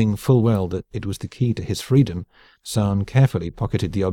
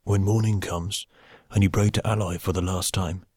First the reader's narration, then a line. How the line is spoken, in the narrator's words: whispered